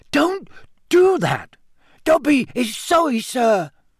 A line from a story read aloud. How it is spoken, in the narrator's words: squeaked Dobby anxiously